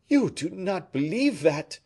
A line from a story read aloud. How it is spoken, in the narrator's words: exclaimed Fouquet indignantly